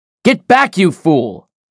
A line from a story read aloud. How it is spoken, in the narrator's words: Chatterton shouted